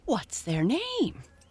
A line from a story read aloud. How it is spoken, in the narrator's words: she managed to gasp